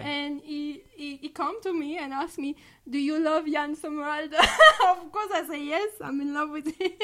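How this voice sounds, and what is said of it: Foreign accent in English. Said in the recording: “the accent. I love it”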